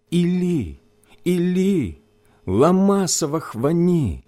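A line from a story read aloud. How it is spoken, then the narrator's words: Loud cry. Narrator (Russian): возопил Иисус громким голосом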